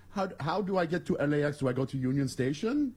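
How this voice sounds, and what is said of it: Generic put-on Iranian accent. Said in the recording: “your Iranian accent? ... my, my generic.”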